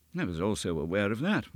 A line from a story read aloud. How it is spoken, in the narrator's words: murmured Holmes